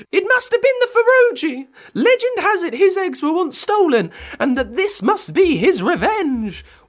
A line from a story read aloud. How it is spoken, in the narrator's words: wailed an old lady